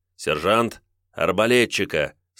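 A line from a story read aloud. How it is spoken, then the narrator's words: Calm command. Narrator (Russian): спокойно приказал брат Гуго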